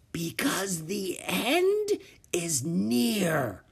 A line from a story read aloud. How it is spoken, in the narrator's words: she whispered hoarsely